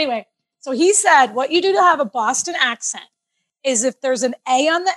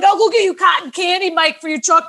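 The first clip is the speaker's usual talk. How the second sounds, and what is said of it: Attempted Boston accent. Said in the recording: “I was trying to do a Boston accent ... I think I can do every accent and I can't do any ... So I started doing the Boston accent”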